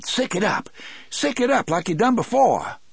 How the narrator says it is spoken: Brutal shouted

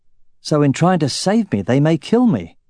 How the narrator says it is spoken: Roran asked

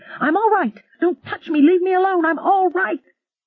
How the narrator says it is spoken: Patricia McArdle was shrieking

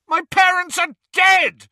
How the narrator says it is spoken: Harry bellowed

